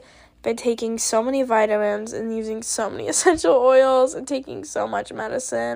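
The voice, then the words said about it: Congested, stuffed-up voice. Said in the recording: “my stuffed up voice, I am currently sick with a cold ... my voice just sounds very gross”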